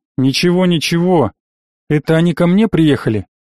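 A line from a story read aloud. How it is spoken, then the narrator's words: Snorting. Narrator (Russian): хмыкнул я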